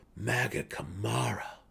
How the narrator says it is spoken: whispered the stunned Svefneblin

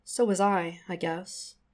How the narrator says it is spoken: says mournfully

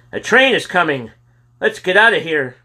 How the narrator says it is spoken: cried Robert

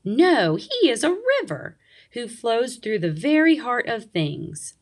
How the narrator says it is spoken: thundered the waterfall

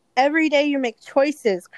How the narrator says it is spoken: Crandall bellowed

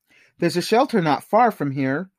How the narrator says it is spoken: Mark said

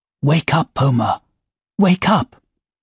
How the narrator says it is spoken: whispered

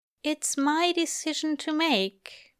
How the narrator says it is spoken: Aziraphale says, but his voice is absolutely uncertain

